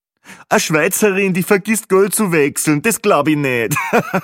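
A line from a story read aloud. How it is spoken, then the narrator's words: Joking, laughing loudly. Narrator (German): lustige Kommentar von Peppi Gruber, und natürlich lachte er selbst am lautesten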